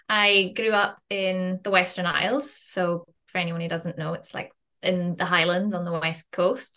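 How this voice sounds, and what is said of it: Scottish accent. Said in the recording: “you can probably tell from my accent, I'm Scottish”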